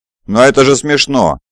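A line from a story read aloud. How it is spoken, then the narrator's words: Exclamation. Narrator (Russian): воскликнул Хавсер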